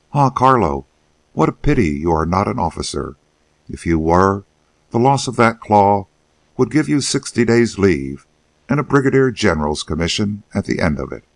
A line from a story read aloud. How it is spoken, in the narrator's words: A private of Company G, who first noticed the wound, exclaimed